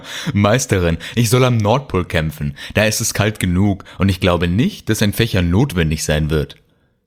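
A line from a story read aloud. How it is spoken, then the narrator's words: Laughing. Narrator (German): lachte er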